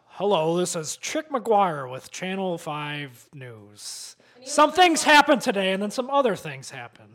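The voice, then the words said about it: Deeper news anchor voice. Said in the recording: “you need to have a deeper voice. Like, hello, this is ABC 7 Eyewitness News ... I was gonna try to do a deeper voice ... I need some more authority in your voice.”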